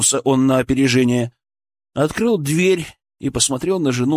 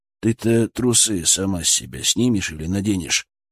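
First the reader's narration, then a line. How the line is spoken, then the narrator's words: Uncertain question. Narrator (Russian): спросил он неуверенно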